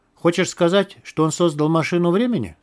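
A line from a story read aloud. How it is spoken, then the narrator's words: Plain. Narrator (Russian): спросил Лист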